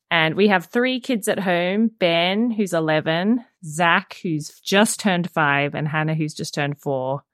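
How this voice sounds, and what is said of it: Australian accent. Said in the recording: “as you can hear from the accent, I am a native to Australia”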